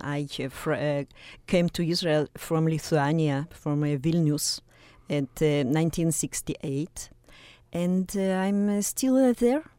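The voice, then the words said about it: Russian accent. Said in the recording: “My accent is Russian.”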